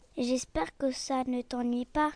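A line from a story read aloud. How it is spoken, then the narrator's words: Plain, bird. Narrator (French): dit l'oiseau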